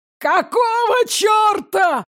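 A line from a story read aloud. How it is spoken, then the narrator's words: Yelled. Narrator (Russian): заорал Мирон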